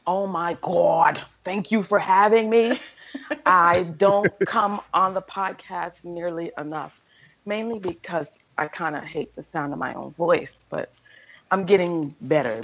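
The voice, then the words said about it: Velvety smooth radio voice. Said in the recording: “You have a velvety, perfect radio voice.”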